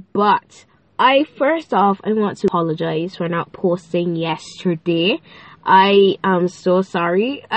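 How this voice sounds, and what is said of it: Nasal, congested voice. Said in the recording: “I sound a bit nasal ... It sounds pretty bad ... sinuses just decide to, you know, drip, and then allergies”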